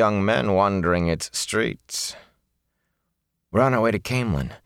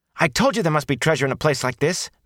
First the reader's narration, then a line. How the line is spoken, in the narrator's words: Matt exclaimed